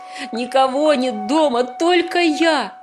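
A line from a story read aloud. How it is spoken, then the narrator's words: Sobbing. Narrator (Russian): Я зарыдал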